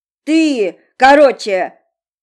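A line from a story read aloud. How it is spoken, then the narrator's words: Shouting. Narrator (Russian): выкрикнул первый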